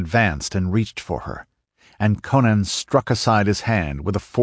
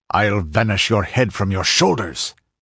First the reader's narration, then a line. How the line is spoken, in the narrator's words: snarled the infuriated Cimmerian